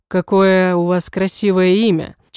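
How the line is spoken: Charming voice. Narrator (Russian): Чарующим голосом произносит Эторио

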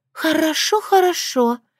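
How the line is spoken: Weary exhale. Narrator (Russian): выдохнула Эвил

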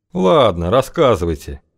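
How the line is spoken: Muttered grumble. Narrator (Russian): буркнул тот

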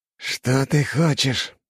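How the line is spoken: Hissed. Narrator (Russian): прошипел тот

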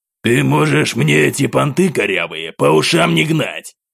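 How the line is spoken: Angry growl. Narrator (Russian): Гневно рыкнул мужчина

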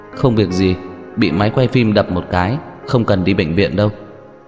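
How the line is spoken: Slightly shaky explaining. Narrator (Vietnamese): giọng nói của Hứa Gia Mộc hơi run run giải thích

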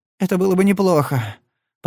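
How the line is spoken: Female groan. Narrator (Russian): простонала она

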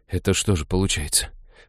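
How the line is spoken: Dejected mutter. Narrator (Russian): упавшим голосом пробормотал Хел

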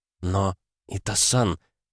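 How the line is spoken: Mumbling. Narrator (Russian): пробормотала она

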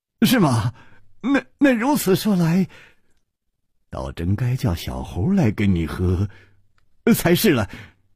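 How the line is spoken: Bursting out laughing. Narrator (Chinese): 楚留香失声笑道

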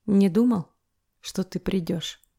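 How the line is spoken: Quiet husky voice, close. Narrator (Russian): Его тихий голос хрипотцой звучит над самым ухом

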